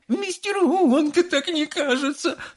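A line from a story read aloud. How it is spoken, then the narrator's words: Tearful speech. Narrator (Russian): сквозь слезы проговорила миссис Глуп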